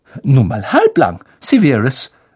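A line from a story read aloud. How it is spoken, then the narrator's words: Sharp. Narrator (German): sagte scharf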